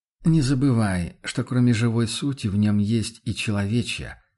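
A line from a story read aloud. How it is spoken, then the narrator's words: Regretful sigh. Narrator (Russian): вздохнул охотник с сожалением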